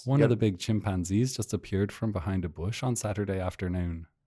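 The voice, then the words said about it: Put-on generic Dublin-style Irish accent. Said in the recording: “How do you do an Irish accent? ... No, that's not Belfast. ... That's not a Northern Ireland accent, no. ... That's definitely more of a Dublin, but that's not a bad generic Irish accent, I think.”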